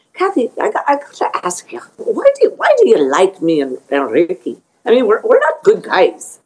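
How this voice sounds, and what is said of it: Scottish accent. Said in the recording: “I have to do him with a Scottish accent”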